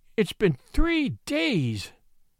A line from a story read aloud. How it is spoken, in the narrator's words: moaned the miniature painter